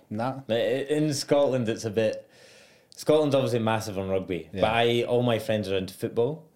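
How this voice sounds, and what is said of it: Posh Edinburgh Scottish accent. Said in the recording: “I'm from Edinburgh, so I'm class. It's almost like a posh accent I have.”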